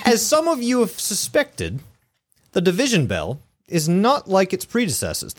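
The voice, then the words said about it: Attempted British accent, sounding Australian. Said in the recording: “give it the British accent. I want you to try it, but go British ... I'm terrible at accents ... It's going to sound Russian or something ... This is Australian as fuck ... you're doing great”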